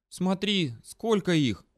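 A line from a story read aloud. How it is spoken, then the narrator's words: Visibly frightened. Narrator (Russian): заметно испуганно сказала Дрика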